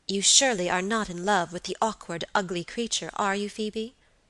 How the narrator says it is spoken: asked my lady sharply

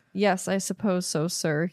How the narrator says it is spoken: he said finally in an expressionless voice

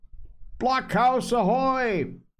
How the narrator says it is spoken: it cried

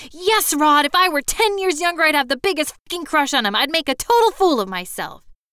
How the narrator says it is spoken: It screamed

